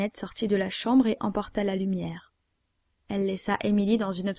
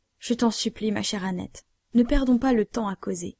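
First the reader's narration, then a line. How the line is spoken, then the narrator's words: Frightened. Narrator (French): dit Émilie d'un ton effrayé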